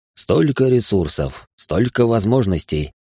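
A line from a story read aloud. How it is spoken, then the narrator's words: Grumbling under breath. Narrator (Russian): бурчал он себе под нос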